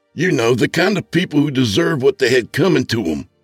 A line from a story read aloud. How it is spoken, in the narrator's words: I yelled